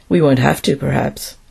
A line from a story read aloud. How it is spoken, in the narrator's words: replied Powell quietly